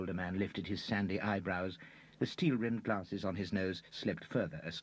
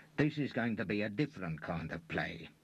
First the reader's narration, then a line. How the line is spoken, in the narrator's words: said the long-faced Lou through his teeth